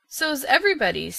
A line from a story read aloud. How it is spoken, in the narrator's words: said Aunt Jamesina cheerfully